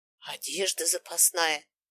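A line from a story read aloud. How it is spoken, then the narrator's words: Whispered listing. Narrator (Russian): тоже шепотом перечислила я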